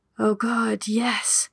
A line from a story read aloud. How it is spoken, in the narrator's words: Pippa whispered